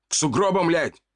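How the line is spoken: Barking soldier. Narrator (Russian): рявкнул солдат

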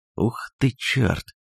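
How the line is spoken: Whispered. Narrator (Russian): прошептал Дэн

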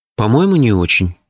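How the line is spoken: Uncertain reply. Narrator (Russian): неуверенно ответил я

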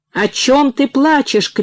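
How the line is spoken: Shout. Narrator (Russian): крикнул

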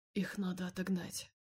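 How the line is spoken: Quiet. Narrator (Russian): тихо сказал он

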